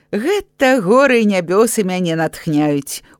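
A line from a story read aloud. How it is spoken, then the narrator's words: Smiling. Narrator (Belarusian): усміхнуўся майстар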